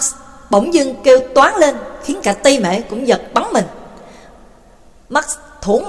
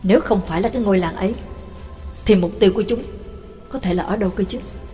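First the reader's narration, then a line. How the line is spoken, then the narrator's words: Muttering to himself. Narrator (Vietnamese): Max lẩm bẩm nói một mình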